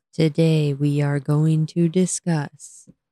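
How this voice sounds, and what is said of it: Flat monotone delivery. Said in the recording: “talks in a monotone voice and makes you fall asleep ... tone of voice can make you fall asleep ... Inflection. Please have some.”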